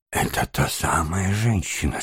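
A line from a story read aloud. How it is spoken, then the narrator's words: Barely audible question. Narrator (Russian): спросил он чуть слышно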